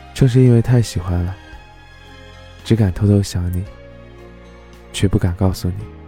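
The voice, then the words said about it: Soft, quiet voice. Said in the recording (Chinese): “小声的说”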